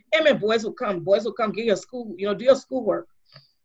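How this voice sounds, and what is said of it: Imitating grandmother's West African accent. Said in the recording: “as my grandma was, I'm using her accent”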